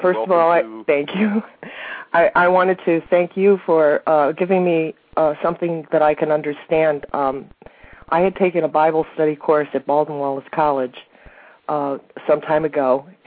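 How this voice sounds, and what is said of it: Stuffy, cold-affected voice. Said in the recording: “I have a little bit of a cold, so my voice is not my own.”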